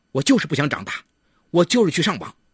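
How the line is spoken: Deliberately provocative. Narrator (Chinese): 为了激起妈妈的怒火，他故意说

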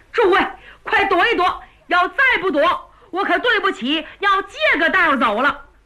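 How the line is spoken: Anxious, hurried. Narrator (Chinese): 月亭着急呀，再晚上去，吉大哥非叫人家踢下去不可，故此说

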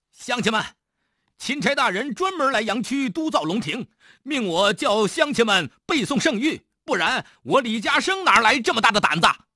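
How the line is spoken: Loud shouting. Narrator (Chinese): 李嘉诚 又大声地喊道

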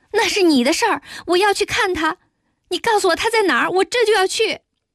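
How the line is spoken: Deliberately raised voice. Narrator (Chinese): 有意提高声音说

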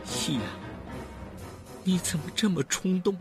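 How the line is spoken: Dying, cut off. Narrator (Chinese): 话还没说完，人就断了气

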